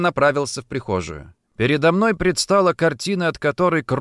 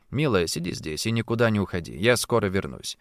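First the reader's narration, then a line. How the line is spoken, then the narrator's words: Firm. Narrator (Russian): твердо сказал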